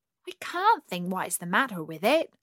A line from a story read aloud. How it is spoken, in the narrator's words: the duck grumbled to her neighbour